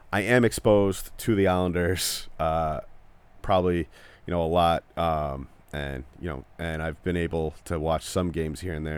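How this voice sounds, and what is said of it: Native New York accent. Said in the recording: “maybe you just know from the accent, I am a native New Yorker”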